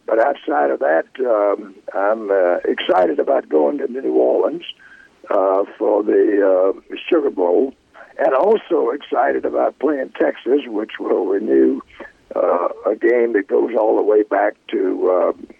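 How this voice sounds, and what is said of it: Slightly hoarse voice. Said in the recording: “I was hoarse for the past week, but it's slowly getting better. But you can tell it's still lingering a little bit.”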